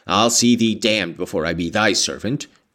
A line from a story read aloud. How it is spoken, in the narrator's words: growled the lad